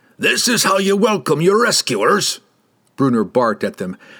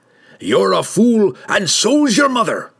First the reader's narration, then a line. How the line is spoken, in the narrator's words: Brunner growled